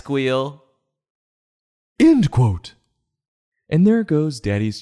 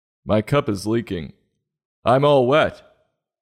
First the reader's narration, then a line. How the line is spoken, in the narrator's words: Daddy says